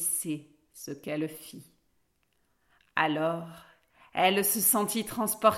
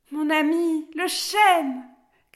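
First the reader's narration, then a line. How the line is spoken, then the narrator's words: Quick shout. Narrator (French): cria aussitôt Alice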